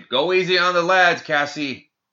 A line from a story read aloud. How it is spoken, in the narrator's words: Others shouted